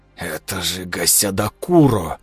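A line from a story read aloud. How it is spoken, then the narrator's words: Shocked, awed mutter. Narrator (Russian): пробормотал Кир, осознавая, что вместе с шоком и отвращением испытывает восторг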